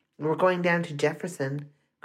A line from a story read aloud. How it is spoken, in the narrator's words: Carla said